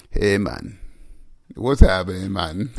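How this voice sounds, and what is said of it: Put-on Jamaican-sounding accent. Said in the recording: “let me tell my real English accent ... You're not Jamaican”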